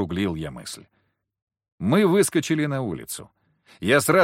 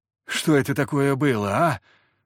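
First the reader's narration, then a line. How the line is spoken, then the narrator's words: Groaned. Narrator (Russian): простонал Захар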